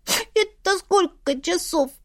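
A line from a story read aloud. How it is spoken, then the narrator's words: Sobbing. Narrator (Russian): всхлипнула Астра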